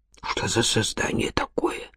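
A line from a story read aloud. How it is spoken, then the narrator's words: Muttered. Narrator (Russian): пробормотал он наконец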